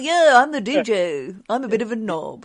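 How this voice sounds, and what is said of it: Cheesy radio DJ voice. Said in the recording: “that real DJ voice”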